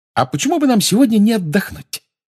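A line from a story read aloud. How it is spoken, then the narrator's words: Cheerful. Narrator (Russian): весело сказала Гермиона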